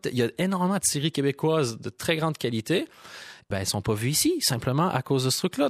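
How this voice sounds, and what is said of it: Québécois French accent. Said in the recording (French): “il y en a qui entendent mon accent ... l'accent québécois”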